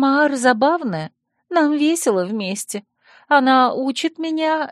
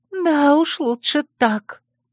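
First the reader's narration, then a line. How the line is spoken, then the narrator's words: Tired. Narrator (Russian): устало отозвалась она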